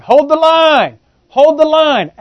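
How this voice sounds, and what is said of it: Yelling a command. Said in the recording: “he's yelling,”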